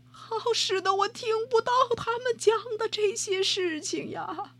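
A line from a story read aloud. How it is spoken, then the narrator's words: Crying out. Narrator (Chinese): 皇帝叫出声来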